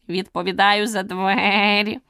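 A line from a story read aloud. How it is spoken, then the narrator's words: Weak hoarse croak. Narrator (Ukrainian): Прохрипів він так кволо, що Аліса ледь почула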